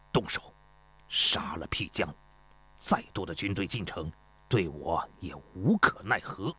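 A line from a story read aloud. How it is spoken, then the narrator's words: Through gritted teeth. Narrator (Chinese): 焦师心一横，咬牙切齿地说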